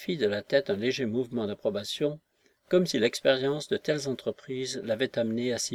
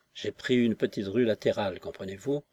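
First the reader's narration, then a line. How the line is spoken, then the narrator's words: Detached tone. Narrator (French): poursuivit-il d'un ton détaché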